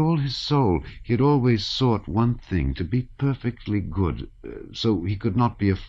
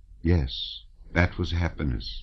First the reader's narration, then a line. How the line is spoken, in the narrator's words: said, in her quiet voice with its deep chest notes